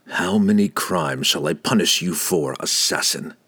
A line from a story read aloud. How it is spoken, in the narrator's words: Drizzt growled